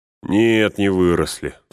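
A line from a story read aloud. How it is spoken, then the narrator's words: Sighing. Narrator (Russian): вздохнул Пин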